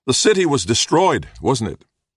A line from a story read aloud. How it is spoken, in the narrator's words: Little John called out